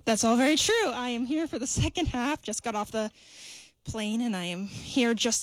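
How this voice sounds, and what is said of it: Out of breath, panting speech. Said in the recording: “are you out of breath?”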